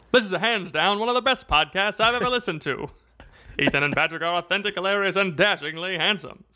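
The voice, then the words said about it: 1920s baseball announcer voice. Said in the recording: “Read it in like a 1920s baseball announcer voice.”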